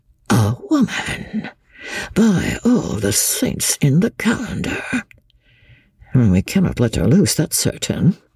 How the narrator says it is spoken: muttered to himself

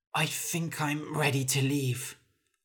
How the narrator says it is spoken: Hulla said hoarsely

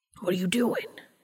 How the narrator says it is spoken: He hissed

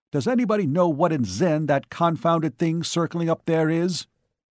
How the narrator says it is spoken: barked

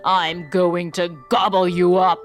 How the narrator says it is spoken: roared the troll

